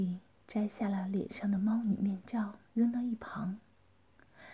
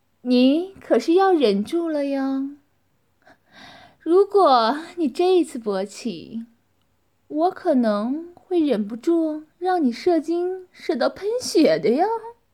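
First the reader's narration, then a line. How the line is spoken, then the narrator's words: Laughing. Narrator (Chinese): 王丽笑着和男子说道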